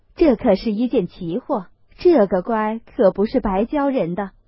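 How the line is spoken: Old women laughing. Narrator (Chinese): 地下婆子们都笑道

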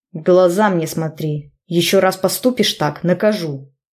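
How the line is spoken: Growling. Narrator (Russian): Зарычал

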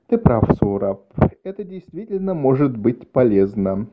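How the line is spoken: Plain. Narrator (Russian): сказала она наконец

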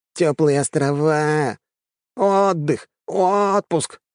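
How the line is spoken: Nasal mimicking drone. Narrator (Russian): гундел он гнусавым голосом, изображая своего начальника

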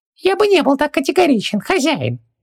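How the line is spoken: Nasty squeaky voice. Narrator (Russian): противным голоском пропищал джин

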